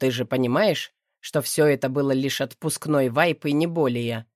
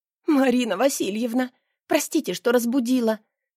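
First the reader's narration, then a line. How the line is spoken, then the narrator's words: Sobbing. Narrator (Russian): всхлипываю в ответ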